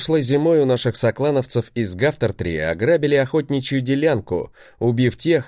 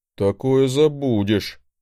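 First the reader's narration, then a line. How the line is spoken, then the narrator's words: Grim grumble. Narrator (Russian): мрачно проворчал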